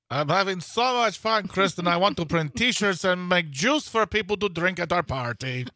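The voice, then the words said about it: Made-up cartoon character accent. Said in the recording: “What is that accent? ... I'm making voices up. I sound like Gru from Despicable Me.”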